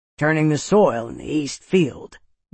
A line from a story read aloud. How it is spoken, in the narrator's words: Jeb grunted